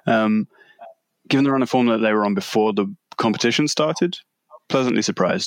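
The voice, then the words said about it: English accent. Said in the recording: “if you can't work it out from the accent, we're talking about England”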